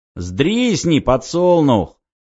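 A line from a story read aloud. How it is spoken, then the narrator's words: Jeering crowd voice, laughter. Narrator (Russian): посоветовали из гущи диких, вызвав взрыв хохота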